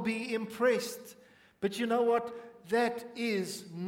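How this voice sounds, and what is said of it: Usual voice. Nothing is said of it.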